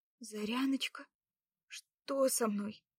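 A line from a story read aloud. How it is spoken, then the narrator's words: Dazed faint babble. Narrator (Russian): пролепетала тихо Лада, пытаясь прийти в себя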